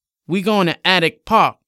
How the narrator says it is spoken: Jason loudly responded

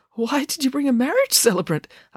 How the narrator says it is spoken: asked Dad nervously

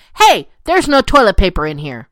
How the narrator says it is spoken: yelled very loudly

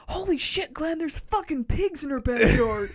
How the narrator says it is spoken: my kids are screaming, and rather than save my children, I run inside and I yell

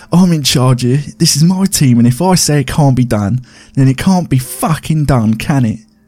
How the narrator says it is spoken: He spluttered in between breaths

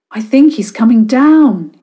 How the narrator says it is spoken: shouted

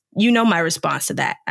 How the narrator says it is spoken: snarled

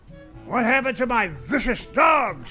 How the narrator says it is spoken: he growled

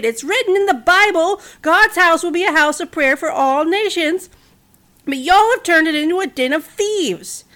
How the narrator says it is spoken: he shouted

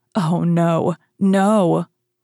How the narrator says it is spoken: Then she suddenly cried

